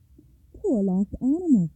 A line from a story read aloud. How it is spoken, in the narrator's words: she cried